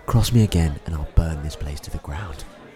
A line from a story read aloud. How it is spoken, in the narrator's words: Teddy leans in really close before he leaves and whispers